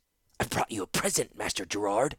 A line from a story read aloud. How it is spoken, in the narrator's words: a voice snarled from the darkness